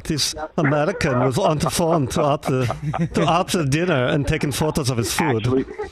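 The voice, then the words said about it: Imitated German accent. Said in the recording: “Sound like the guy from Sprockets. That's very good. ... doing a German accent”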